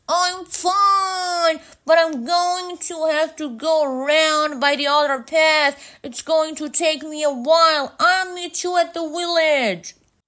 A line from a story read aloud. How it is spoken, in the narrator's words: Liam yells back